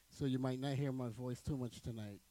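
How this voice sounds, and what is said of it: Hoarse, fading voice from a cold. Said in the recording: “As you can hear my voice, that my voice is actually going... I think that I caught a fresh cold”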